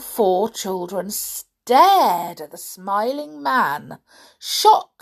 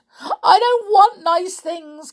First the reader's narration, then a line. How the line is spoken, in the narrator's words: cried poor George